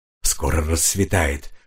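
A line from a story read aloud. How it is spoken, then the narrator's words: Whisper. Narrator (Russian): шепнул Гуми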